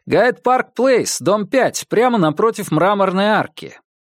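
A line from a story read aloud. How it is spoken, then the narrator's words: Shouted. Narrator (Russian): крикнул вознице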